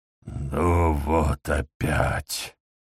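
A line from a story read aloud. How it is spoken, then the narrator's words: Anxious mutter. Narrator (Russian): пробормотал Дамиск, лихорадочно прикидывая, как поступить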